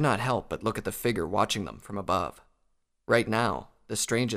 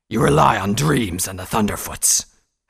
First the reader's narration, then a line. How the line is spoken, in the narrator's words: Hazrock snarled